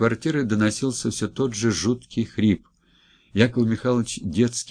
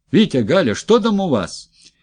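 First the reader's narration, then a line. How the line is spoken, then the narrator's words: Shout. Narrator (Russian): Яков Михайлович крикнул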